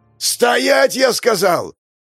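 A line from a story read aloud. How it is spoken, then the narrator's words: Yelling. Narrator (Russian): заорал мужчина в костюме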